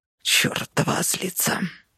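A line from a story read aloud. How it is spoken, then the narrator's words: Muttered. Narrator (Russian): пробормотал он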